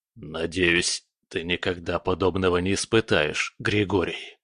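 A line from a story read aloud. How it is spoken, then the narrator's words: Hoarse rasp. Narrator (Russian): прохрипел он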